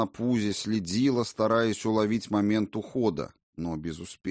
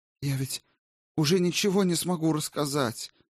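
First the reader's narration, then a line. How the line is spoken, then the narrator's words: Pleading. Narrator (Russian): взмолилась она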